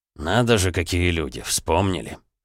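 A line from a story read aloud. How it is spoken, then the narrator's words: Colonel's snort. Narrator (Russian): хмыкнул полковник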